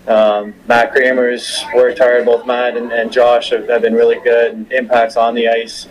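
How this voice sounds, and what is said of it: Canadian accent. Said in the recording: “I'm hearing the accent. I'm hearing the Canadian in you.”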